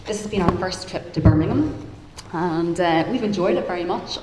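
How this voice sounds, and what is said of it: Northern Irish accent. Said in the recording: “you'll probably hear from my accent, I'm not from around these parts ... I grew up in Belfast, Northern Ireland”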